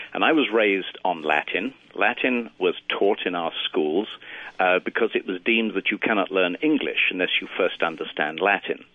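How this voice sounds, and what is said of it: British accent. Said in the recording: “I'm a Brit, as you'll gather by the accent”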